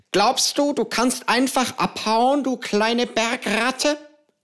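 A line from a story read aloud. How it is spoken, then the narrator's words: Hissing, strange accent. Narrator (German): fauchte ihn eine Stimme mit einem merkwürdigen Akzent an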